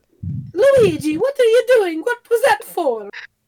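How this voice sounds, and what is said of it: Mario character voice. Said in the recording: “who does a really good Mario voice?”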